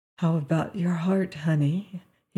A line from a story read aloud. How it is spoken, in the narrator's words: he whispered